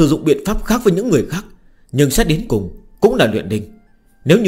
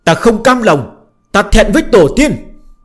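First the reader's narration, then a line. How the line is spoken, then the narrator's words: Echoing anguished scream. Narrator (Vietnamese): tiếng gào thét này vang vọng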